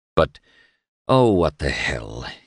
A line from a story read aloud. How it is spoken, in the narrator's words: he grunted, like Carl Paschal